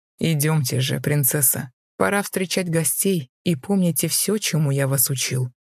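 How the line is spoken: Monster, smirking then soft. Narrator (Russian): усмехнулся монстр, после чего мягко произнес

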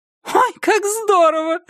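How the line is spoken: Delighted exclamation. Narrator (Russian): восторженно вскрикнула Иден

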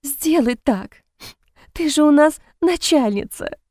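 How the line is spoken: Sobbing. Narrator (Russian): всхлипывает она

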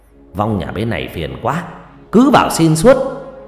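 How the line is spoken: Grumbling man. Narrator (Vietnamese): một ông thầy cao rong ròng bước ra, miệng cằn nhằn

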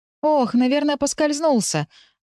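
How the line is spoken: Feigned worried exclamation. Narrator (Russian): воскликнула я, придав голосу обеспокоенности

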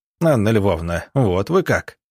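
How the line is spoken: Laughing. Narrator (Russian): засмеялся

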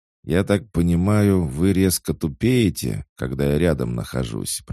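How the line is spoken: Grumble. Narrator (Russian): проворчал Ерм

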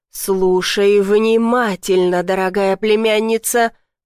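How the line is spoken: Growled. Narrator (Russian): прорычал Викториан

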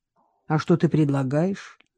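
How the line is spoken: Lazy question. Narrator (Russian): лениво спросил Виктор

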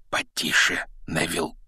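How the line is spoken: Whisper. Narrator (Russian): шепнул Рон

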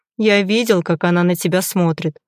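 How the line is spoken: Tired. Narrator (Russian): устало произносит Артем

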